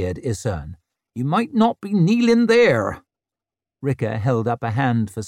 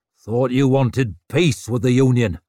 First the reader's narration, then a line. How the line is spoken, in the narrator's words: grunted Hardbread